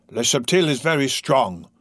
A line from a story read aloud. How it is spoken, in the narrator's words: cried Magua